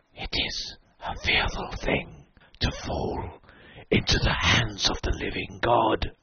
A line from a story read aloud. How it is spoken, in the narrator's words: I heard the king in yellow whispering to my soul